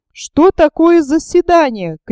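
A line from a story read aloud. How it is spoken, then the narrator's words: Shouting voice. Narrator (Russian): крикнул голос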